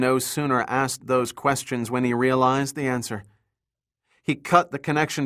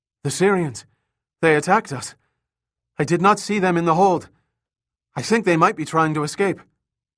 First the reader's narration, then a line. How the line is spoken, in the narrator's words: the guard panted